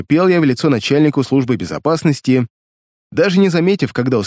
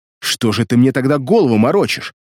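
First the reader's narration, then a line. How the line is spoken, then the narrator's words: Angry question. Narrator (Russian): Зло спросил я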